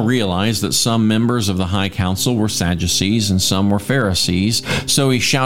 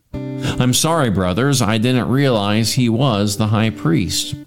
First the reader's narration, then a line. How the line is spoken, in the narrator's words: Paul replied